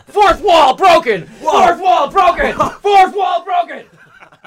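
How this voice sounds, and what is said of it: Yelling loudly. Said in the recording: “I'm yelling for no good reason! ... I'm blowing out my eardrums.”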